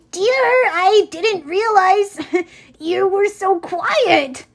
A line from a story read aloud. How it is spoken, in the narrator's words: Grover yelped